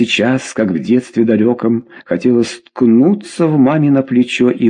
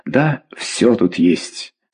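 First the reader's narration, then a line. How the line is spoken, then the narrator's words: Plain. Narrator (Russian): сказала Клавдия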